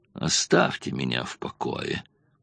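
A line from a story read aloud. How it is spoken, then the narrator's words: Grumbling. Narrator (Russian): Он проворчал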